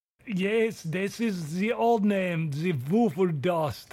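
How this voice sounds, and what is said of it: Put-on German accent. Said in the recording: “I'm trying to get rid of this German accent. It's off-putting, but sometimes it comes in... Just hearing that old name, it brought out the accent in me.”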